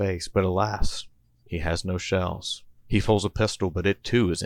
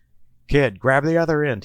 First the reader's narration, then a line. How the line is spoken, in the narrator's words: he yells to Little Rock